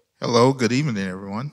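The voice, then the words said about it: Polished radio announcer voice. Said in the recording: “you started the radio voice. Boy, you got that thing down, man.”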